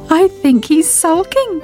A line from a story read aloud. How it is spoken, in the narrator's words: giggled Sybil